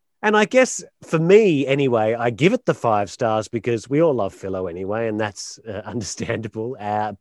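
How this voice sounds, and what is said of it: Non-local accent. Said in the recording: “as you probably can tell from the accent, not being from around here”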